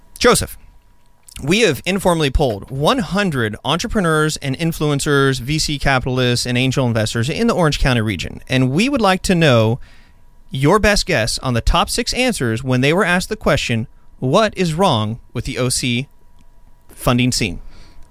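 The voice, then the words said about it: Game show host impression. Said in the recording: “I don't have a really good Steve Harvey impression”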